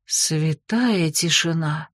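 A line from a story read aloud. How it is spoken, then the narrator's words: Stunned exhale. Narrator (Russian): потрясенно выдохнула Алифания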